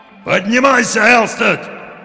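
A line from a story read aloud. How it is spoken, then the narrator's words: Impatient shout, old sailor. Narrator (Russian): в нетерпении закричал старый морской волк с косматой грудью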